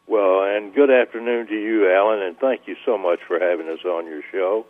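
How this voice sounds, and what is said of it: Southern Tennessee twang accent. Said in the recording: “I love that twang. You could only be from Nashville. ... Tennessee in the South, so most people are accustomed to this accent.”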